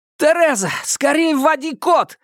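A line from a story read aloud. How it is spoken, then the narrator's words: Yelling. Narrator (Russian): завопил он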